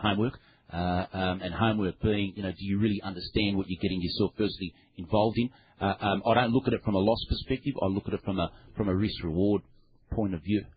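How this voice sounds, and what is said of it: Noticeable foreign accent. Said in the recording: “I was having trouble with the accent”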